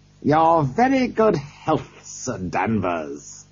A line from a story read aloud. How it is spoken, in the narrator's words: he laughed